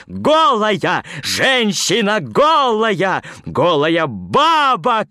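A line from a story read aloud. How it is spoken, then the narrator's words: Shouting. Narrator (Russian): кричал Пушков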